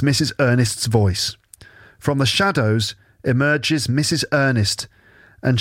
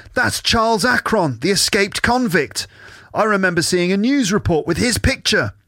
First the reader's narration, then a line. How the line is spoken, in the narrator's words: June gasps